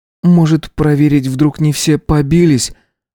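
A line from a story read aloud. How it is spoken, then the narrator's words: Timid suggestion, young man. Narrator (Russian): робко предложил один из парней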